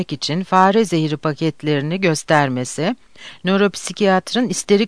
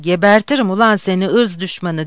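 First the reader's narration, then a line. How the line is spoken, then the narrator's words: Woman shouting furiously. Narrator (Turkish): diye bağırarak kadını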